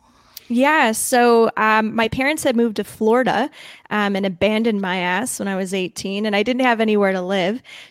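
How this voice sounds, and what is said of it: Heavy Midwestern American accent. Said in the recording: “I have a really heavy Midwest accent”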